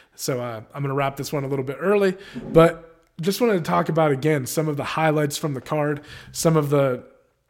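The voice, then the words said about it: Voice sounds a little off. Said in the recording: “my voice is a little bit off. I haven't been feeling too good.”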